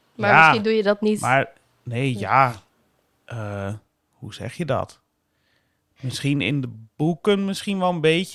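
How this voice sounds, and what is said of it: Strong northern Dutch accent. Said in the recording (Dutch): “ik heb een verschrikkelijk noordelijk accent.”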